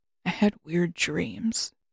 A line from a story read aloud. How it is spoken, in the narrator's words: mumbled